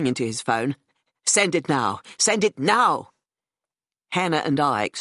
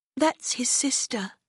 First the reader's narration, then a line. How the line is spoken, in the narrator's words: she said quietly